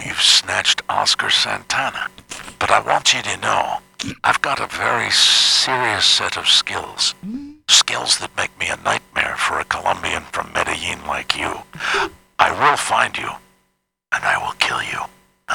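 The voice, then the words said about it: Liam Neeson impression, Irish accent. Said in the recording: “You started out with an Irish accent ... I want to make sure I'm doing Liam Neeson.”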